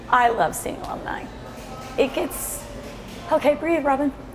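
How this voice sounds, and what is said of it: Teary, emotional voice. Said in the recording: “I'm going to get teary-eyed now. Ugh. I was doing so good not getting teary-eyed.”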